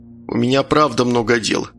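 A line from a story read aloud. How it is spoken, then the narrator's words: Mumbling. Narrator (Russian): пробормотал Габриэль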